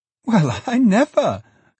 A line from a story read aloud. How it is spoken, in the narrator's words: cried Meg